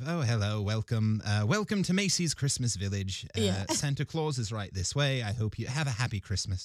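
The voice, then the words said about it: Put-on English accent. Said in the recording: “Do a bit of an accent ... really from England ... the sort of Dickensian villager”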